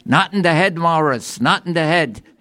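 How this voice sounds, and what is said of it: Put-on Jewish accent. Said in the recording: “in a fine Jewish accent”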